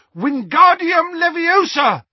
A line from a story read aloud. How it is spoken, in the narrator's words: In desperation, Harry pointed his wand at the sidecar and shouted